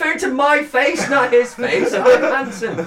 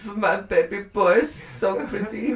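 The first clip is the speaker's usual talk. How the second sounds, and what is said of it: Generic vaguely European, German-sounding accent. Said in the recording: “Is she German? ... This is vaguely European. ... That's German. ... I have one generic accent. For when I'm doing the foreigner.”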